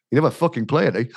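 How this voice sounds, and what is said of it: Imitates another person's voice. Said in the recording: “best impression of David Lloyd so far. That was brilliant.”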